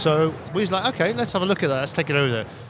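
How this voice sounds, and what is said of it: English accent. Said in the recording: “We're from England. You may be able to tell by my accent.”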